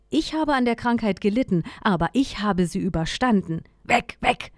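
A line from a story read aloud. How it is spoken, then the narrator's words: Barking. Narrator (German): bellte er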